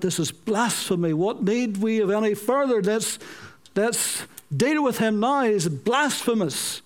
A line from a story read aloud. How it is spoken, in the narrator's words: they cried out